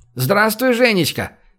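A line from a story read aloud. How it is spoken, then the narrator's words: Shouted from car. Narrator (Russian): крикнул из окна машины цыган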